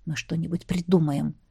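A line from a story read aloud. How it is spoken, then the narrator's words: Whispered. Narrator (Russian): шепнул мне Ронал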